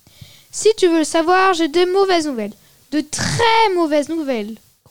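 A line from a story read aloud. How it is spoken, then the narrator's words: Growling rat. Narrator (French): grogna le rat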